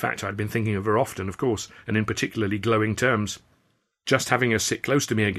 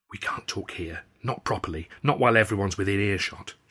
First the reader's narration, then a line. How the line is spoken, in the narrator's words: she whispered